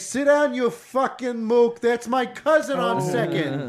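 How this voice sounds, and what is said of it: Bad put-on New York accent. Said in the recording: “terrible New York impression”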